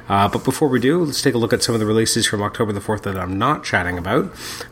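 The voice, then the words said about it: Congested, more nasal voice than usual. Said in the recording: “Still a little under the weather. You can probably hear it in my voice. I'm a little more nasally than normal”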